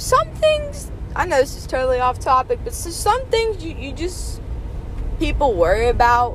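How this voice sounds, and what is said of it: Southern US accent, Texas-like. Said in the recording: “my horrible southern accent, which apparently I have... other people say that I sound like I'm from Texas”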